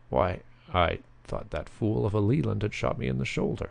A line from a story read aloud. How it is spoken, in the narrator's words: stammered Tommy